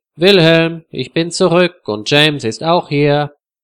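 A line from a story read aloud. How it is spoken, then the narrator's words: Calling out. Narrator (German): Freda ruft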